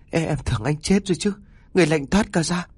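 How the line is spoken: Trembling stammering woman. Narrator (Vietnamese): Bà Hà run rẩy, lắp bắp mãi mới nói

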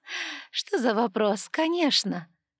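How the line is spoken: Laughing. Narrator (Russian): рассмеялась Ева

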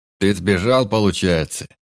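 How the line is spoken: Hoarse mocking question. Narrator (Russian): спросил хрипло, с издевкой

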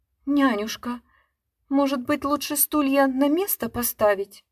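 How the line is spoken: Timid. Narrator (Russian): Говорю робко

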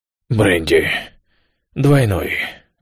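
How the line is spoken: Hoarse, feverish. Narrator (Russian): почти лихорадочно, хриплым голосом произнес

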